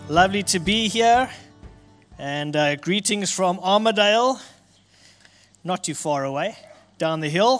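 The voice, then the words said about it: South African accent. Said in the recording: “you might have picked up from my accent, I am South African”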